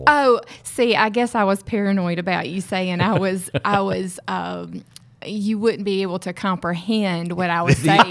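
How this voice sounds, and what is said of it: Southern American accent. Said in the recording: “your amazing Southern accent ... So you have an accent”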